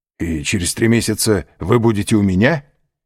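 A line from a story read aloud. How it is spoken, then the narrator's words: Joyful exclamation. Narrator (Russian): радостно воскликнул Альбер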